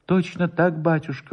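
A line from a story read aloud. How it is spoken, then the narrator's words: Trembling voice. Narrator (Russian): повторил Воробьев дрожащим голосом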